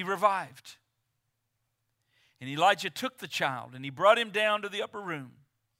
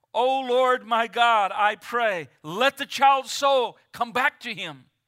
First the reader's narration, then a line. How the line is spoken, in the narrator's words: he cried out to the Lord, and he said